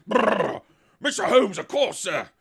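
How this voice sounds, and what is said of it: Put-on Cockney accent. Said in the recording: “in a nice Cockney voice”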